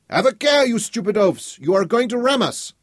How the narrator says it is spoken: A Frenchman aboard the other ship shouted

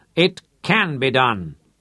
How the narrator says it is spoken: Manfred raised his voice

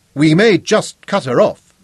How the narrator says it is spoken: Zuga said loudly

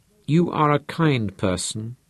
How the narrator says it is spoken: he murmured

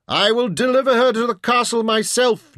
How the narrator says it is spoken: Jim yelled

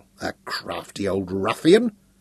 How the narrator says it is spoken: muttered, half in exasperation and half in admiration

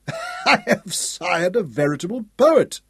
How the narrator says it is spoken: Hal laughed

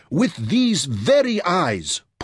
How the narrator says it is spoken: Porto cried

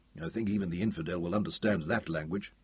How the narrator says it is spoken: he muttered

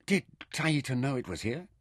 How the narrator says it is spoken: Mintaka asked

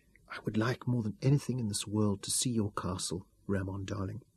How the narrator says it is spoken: she whispered huskily

